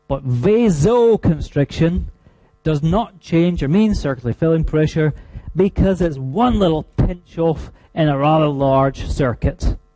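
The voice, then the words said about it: Scottish accent. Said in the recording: “I'm sorry if the Scottish accent is hard to decipher”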